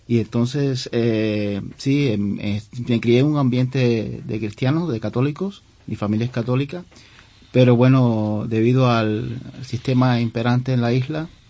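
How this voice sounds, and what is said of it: Cuban Spanish accent. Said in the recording (Spanish): “por mi acento se habrán dado cuenta que no soy de origen español ... soy cubano”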